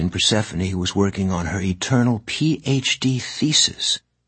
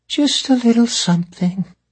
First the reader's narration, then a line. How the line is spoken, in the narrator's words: Persephone said sadly, or perhaps thoughtfully